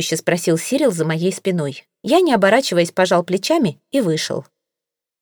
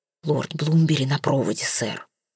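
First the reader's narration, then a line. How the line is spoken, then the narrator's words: Whispered. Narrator (Russian): прошептал дворецкий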